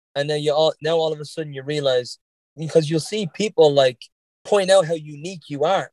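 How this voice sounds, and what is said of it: Mild Irish Dublin accent. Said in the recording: “my Irish accent is not super strong. It's a little bit on the Dublin side, obviously ... every now and again, I'll say something that's a little Bostonian”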